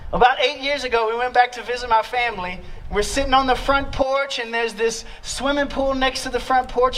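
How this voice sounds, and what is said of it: Louisiana Southern accent. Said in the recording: “do I still have the accent? Have I lost it? ... why does that dude sound like that? That's why. I'm from Louisiana ... Oh, you see, it's coming out.”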